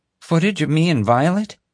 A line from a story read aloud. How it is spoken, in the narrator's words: gasped